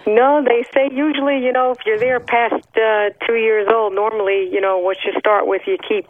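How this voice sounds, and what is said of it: New Jersey accent. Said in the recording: “you don't sound like a Texas lady ... you didn't lose your New York, your New Jersey accent”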